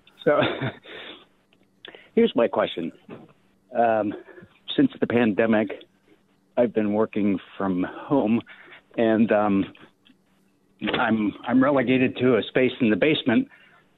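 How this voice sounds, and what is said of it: Out of breath, panting speech. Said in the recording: “apologies for me being out of breath. I just walked up 5 flights of steps.”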